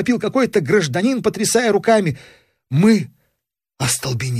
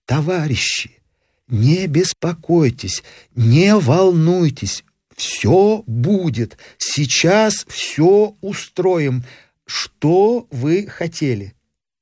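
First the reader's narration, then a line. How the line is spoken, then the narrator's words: Quiet soothing question. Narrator (Russian): Тихим, примиряющим голосом устроитель спросил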